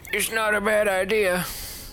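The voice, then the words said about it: Old man character voice. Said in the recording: “your old man voice”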